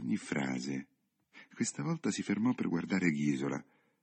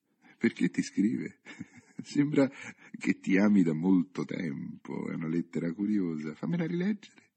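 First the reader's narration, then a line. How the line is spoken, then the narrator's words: Laughing question. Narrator (Italian): Il signor Alberto le domandò ridendo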